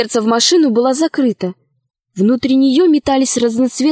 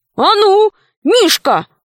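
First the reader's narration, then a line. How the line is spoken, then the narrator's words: Shouted. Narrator (Russian): крикнул толстый король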